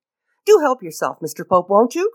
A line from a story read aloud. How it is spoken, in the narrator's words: cried Lord Peter hospitably